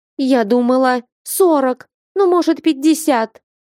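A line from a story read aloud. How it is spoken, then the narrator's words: Girl wailing. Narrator (Russian): взвыла девушка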